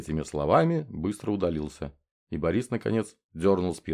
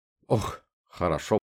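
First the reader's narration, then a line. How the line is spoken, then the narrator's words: Forced, grimacing. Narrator (Russian): скривив лицо, выдавил из себя Борис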